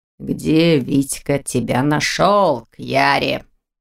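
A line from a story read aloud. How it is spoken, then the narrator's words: Growl. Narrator (Russian): Зарычал Непогодин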